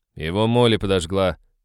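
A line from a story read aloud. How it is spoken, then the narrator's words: Grumble after swallowing. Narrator (Russian): проворчал Хэл, сглотнув слюну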